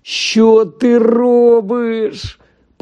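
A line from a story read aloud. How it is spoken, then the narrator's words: Ashen groan. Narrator (Ukrainian): простогнав посірілий Рон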